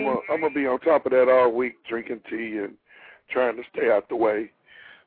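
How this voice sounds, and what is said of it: Raspy, strained voice. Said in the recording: “his voice is kind of raspy ... I was losing my voice”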